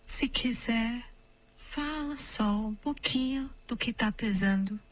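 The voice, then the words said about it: Calm whisper. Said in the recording (Portuguese): “Posso tirar um sussurrinho ... Um sussurrinho, calmo.”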